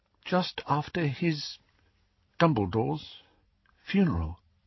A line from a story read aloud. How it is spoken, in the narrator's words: said Hermione in an even smaller voice